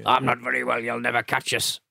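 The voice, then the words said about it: Sickly voice imitating Wearside Jack. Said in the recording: “do an impression of Jim doing the message ... Putting on the best ill person voice ... sounded like Wayside Jack ... Wayside Jack there”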